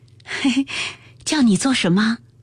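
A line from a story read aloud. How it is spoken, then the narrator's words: Smiling question. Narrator (Chinese): 袭人堆下笑来问道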